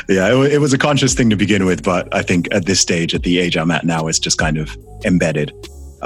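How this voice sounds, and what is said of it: Non-British accent, slightly softened. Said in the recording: “I made a conscious decision that I was not going to lose my accent... all of my siblings all have British accents and I'm the only one in my family who sounds like this... It's softened a little bit. Like, it's now somewhere in the middle”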